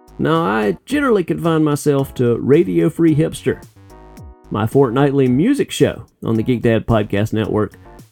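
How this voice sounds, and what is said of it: Distinct twangy voice. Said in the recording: “the distinct twang of my voice”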